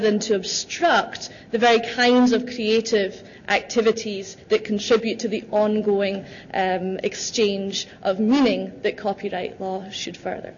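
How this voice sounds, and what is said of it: Speaks with a distinct accent. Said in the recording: “a beautiful accent”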